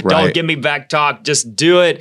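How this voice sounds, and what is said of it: Put-on New Jersey accent. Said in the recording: “why do you have like a New Jersey accent ... because I feel like it's a little more aggressive.”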